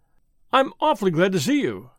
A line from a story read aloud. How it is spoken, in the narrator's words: said the young man, eagerly